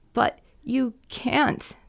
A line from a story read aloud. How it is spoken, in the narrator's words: the woman sobbed